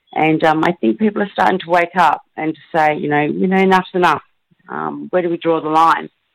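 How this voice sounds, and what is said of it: Hoarse, strained voice. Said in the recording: “I'm just about, you know, losing my voice. ... Doing lots of shouting during the march.”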